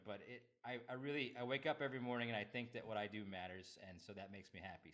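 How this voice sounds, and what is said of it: Choked-up, emotional voice. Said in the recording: “get choked up”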